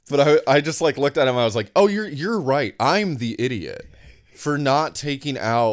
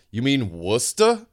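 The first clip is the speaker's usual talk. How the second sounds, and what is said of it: Boston accent imitation. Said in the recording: “I can't do a Boston accent ... that was pretty good. That was a pretty good accent.”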